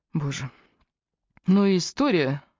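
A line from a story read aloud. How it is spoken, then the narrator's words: Sighed. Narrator (Russian): вздохнула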